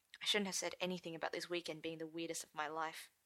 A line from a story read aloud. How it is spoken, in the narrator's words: he said quietly